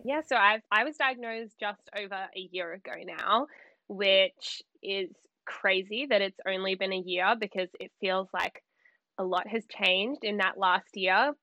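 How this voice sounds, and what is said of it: Australian accent. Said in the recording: “I'm in Sydney, Australia. ... a little bit of a different accent ... Yes, but it's lovely.”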